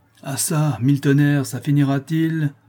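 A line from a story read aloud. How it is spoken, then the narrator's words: Exclamation. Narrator (French): s'écria Malicorne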